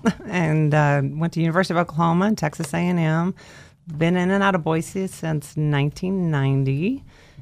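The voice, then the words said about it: Drawling accent. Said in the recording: “You can hear that drawl.”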